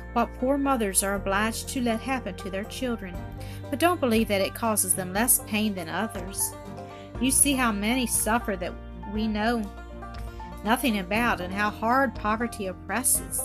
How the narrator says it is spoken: replied the doctor soothingly

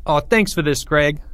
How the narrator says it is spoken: said Porge

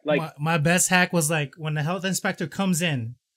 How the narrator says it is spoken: they yell into the kitchen

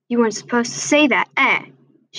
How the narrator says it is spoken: she sneered

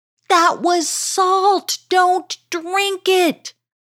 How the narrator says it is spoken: Obeynati cried out

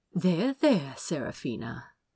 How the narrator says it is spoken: the prince murmured, tutting fondly

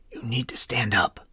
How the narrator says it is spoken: Spiller's disembodied voice barked at him quietly

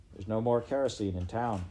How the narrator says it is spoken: Pa said,

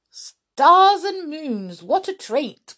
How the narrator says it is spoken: cried Binky in delight

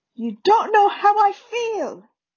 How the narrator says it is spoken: Harry roared

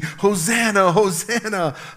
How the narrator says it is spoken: were screaming

